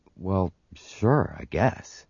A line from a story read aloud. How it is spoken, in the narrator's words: he mumbled